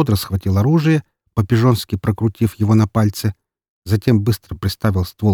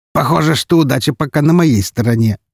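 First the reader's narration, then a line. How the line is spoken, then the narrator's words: Laughing. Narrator (Russian): рассмеялся Броницкий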